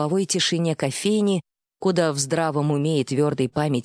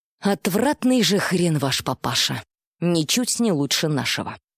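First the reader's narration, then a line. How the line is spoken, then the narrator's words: Angry, through clenched teeth. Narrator (Russian): Зло процедила бариста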